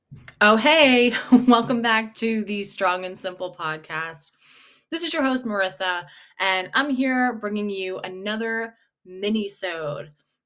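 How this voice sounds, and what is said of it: Sore-throated voice. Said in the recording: “I'm eating a cough drop right now. I have a sore throat. ... Cough drop tucked in the cheek.”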